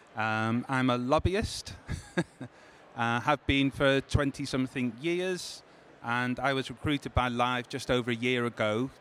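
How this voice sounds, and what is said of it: Liverpool accent. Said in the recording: “from the accent, you can tell I'm just 30 odd miles away from Sacha, based in Liverpool”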